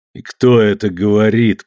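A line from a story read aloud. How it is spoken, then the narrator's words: Grumbling. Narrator (Russian): проворчал он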